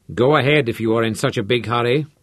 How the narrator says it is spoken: growled

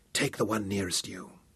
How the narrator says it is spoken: whispered

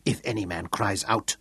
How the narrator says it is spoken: Tungata whispered

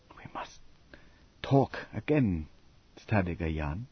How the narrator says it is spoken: she said huskily

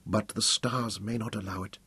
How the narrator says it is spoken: she whispered

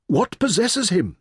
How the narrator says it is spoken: Merrin pleaded with Samana

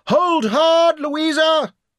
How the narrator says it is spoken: shouted

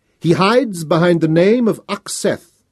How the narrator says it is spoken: Thanos roared

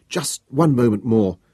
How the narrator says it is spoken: could not restrain myself pleaded

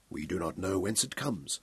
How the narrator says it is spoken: Sir Francis said gravely

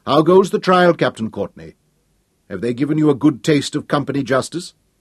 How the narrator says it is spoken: Sir Francis raised his voice

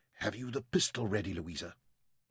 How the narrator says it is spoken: The rumble of the wheels and the creak and rattle of equipment covered Sarah's voice as she whispered to the girls

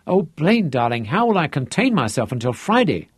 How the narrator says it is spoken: she cried

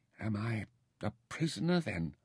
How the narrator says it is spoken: whispered

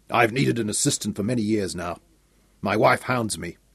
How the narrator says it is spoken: chuckled at the hyperbole

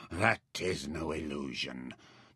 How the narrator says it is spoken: Trock said grimly

